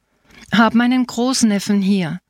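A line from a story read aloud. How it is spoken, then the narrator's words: Plain. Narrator (German): sagte Saverio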